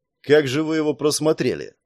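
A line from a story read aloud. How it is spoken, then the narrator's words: Grumbled. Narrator (Russian): буркнул Саш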